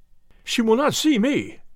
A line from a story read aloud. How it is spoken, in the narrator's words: cried Ferguson